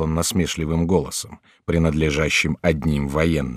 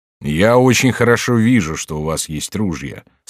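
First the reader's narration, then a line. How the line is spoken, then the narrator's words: Plain. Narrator (Russian): сказал Тилли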